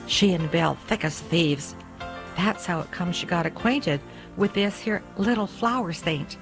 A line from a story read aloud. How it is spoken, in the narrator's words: he added, almost in a whisper